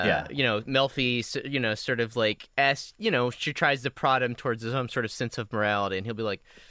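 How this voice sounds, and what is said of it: Usual voice. Nothing is said of it.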